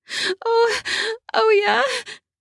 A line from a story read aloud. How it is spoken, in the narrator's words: she moaned out